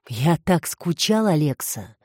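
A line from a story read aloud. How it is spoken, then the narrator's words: Breathed out. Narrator (Russian): выдохнул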